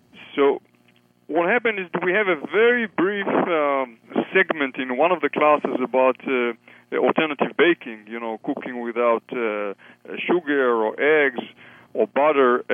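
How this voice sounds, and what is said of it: Israeli accent. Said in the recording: “I'm coming from Israel, for your listeners who are wondering about my accent.”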